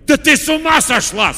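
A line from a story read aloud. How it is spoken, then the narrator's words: Horrified shout. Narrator (Russian): с ужасом закричал он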